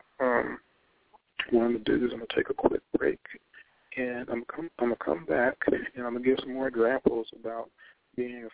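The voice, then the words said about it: Strained, fading hoarse voice. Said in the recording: “It looks like I'm losing my voice a little bit, so hopefully you can hear me.”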